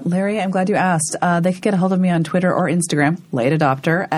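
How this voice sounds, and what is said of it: Husky, low, congested voice. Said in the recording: “you have soldiered through this podcast with a terrible cold ... Do I sound sexy? ... you sound like it's like doing a podcast with Kathleen Turner”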